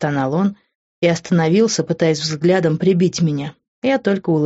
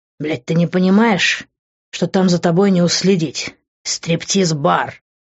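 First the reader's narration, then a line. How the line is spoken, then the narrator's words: Continued growling. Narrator (Russian): продолжал он рычать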